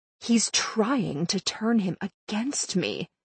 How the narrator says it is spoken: she hissed

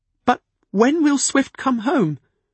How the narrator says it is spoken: she demanded anxiously

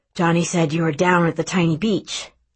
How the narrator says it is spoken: he pants

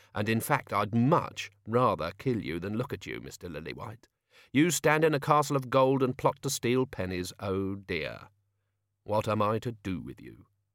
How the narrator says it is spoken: whispered Tea Time

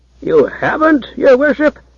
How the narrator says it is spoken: exclaimed the High Froman, in astonishment

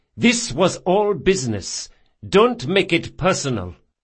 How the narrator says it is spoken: said Zamira sternly

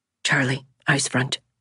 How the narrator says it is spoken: he whispered quickly

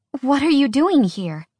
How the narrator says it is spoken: Alex gasped

